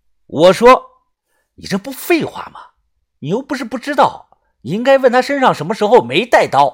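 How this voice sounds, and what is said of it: Usual voice. Nothing is said of it.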